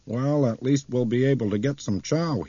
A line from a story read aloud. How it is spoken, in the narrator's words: said loudly